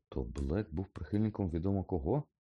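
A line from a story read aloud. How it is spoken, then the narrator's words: Conciliatory reminder. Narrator (Ukrainian): нагадав промирлим тоном Гаррі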